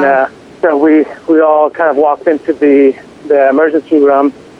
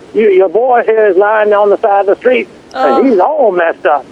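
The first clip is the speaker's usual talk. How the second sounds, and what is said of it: Put-on Louisiana accent. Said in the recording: “forgive my Louisiana accent”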